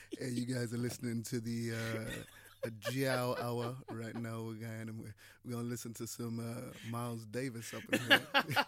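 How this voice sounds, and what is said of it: Smooth jazz radio DJ voice. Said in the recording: “got a proper radio voice. ... you could easily do a Jazz FM, like, show. ... One of them smooth soul things.”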